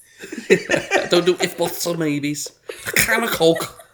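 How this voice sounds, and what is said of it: Put-on squeaky Scouse accent. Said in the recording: “Scouse accent ... I just try and like, just tense my face up and like squeak my voice out. ... That's a strong like 7.5 out of 10 ... It was very good.”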